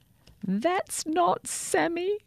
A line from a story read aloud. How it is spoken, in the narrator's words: cried Sophia when she saw a red toothbrush beside the sink